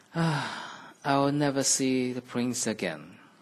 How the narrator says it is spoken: she sighed

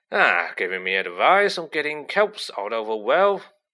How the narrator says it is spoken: growled Hagrid

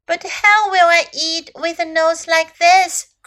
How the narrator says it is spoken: cried Little Elephant

